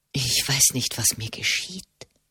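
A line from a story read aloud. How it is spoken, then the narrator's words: Whisper. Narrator (German): flüsterte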